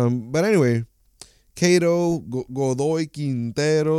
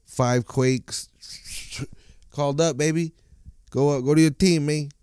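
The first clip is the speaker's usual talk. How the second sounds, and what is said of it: Odd put-on accent. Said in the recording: “What fucking accent was that? What am I trying to do?”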